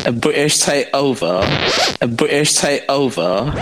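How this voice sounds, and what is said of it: Put-on British accent. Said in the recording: “great British accent ... British accent”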